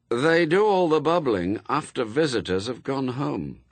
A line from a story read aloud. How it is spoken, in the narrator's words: said Anathema grimly